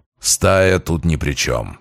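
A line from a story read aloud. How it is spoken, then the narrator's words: Growl. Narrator (Russian): прорычал Грач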